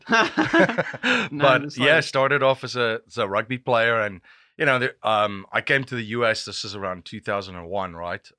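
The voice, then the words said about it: South African accent. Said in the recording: “Originally from South Africa, so not a Pennsylvanian accent.”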